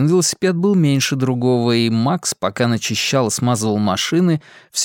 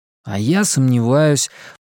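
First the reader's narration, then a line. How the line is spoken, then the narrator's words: Grumbled. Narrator (Russian): пробурчал Макс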